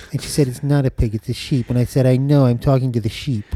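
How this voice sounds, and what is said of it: Poor imitation of another person's voice. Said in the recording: “terrible Truman Capote impression ... you're doing a Truman Capote”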